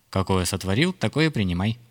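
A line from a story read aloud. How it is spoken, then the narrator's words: Laughing. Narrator (Russian): засмеялась знахарка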